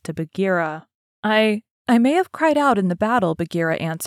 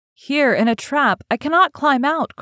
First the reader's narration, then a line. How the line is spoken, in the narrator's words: cried Mowgli